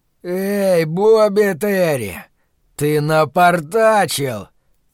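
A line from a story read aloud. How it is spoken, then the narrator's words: Roared. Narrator (Russian): проревел темный человек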